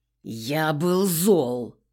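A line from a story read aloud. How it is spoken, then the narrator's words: Growl. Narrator (Russian): прорычал он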